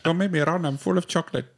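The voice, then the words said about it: Put-on accent, possibly German. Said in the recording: “You can't do that accent... What was that supposed to be?... He's what the German that?”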